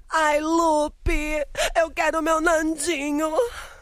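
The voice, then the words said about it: Imitates a dubbing actress's voice. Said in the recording (Portuguese): “Como é a voz da Thalia? ... você tá imitando a voz, né? Da dubladora.”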